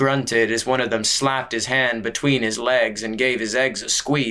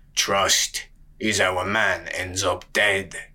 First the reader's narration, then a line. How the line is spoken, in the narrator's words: rasped a voice from the covered wagon